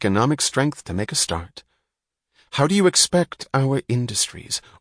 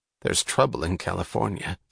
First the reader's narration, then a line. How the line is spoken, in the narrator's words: said Wesley Mouch sullenly